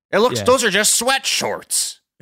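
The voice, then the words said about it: Imitates another person's voice. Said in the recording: “That is a pretty good impression of me.”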